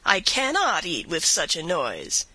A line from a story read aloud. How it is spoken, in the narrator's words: exclaiming